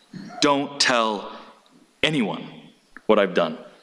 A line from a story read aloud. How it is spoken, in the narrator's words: Jesus tells them sternly, strongly